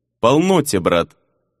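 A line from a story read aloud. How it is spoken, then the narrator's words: Sighing. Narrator (Russian): вздохнул Делера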